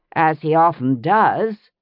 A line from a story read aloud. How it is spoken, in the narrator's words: Brianna said dryly